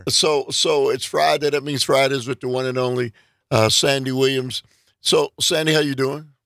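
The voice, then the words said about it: Raspy, hoarse voice. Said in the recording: “My voice is raspy. ... He's got a frog in his throat.”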